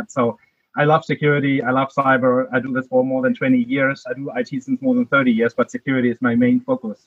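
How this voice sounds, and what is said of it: German accent. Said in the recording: “my accent is from Germany”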